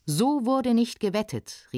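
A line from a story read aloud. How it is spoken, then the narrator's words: Angry shout. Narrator (German): rief erzürnt der Gast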